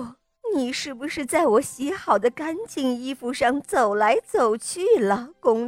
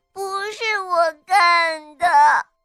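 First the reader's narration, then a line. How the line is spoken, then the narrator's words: Crying girl. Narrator (Chinese): 小公主哭着说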